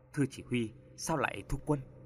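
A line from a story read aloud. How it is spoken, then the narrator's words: Hurried whisper. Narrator (Vietnamese): Tên lính vội chạy lên thì thầm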